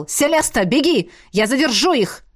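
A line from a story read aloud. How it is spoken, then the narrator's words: Repeated sharp shout. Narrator (Russian): пришлось повторно прикрикнуть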